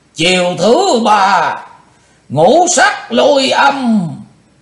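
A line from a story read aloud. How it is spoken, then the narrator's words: Sudden loud shout. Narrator (Vietnamese): Đột ngột Chung Ly Mộ Hoàng quát lớn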